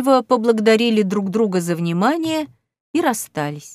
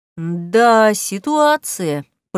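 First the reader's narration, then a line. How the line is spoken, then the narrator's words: Drawling, cat. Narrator (Russian): протянул кот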